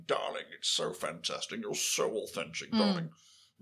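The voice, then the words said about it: Posh home counties middle-class voice. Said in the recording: “the home counties, middle classes make a thing”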